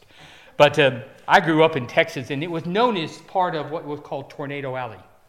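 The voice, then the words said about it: American Texan accent. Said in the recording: “it's not a normal Welsh accent. ... I grew up in Texas”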